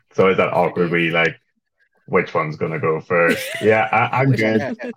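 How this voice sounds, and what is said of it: Hoarse, deep voice from lost voice. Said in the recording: “I lost my voice yesterday, so I sound a bit like Barry White ... the big sexy voice”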